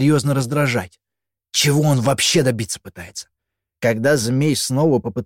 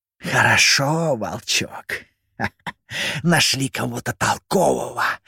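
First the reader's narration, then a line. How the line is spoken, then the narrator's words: Defeated opponent's hiss. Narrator (Russian): прошипел с земли поверженный соперник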